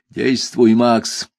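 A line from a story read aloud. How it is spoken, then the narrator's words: Barked. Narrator (Russian): рявкнул на меня Шурф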